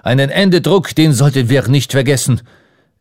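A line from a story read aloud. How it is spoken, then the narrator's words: Calling out. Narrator (German): rief Ardon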